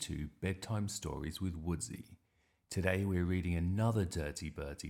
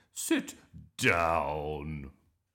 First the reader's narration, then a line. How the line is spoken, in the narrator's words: barked Miss Boot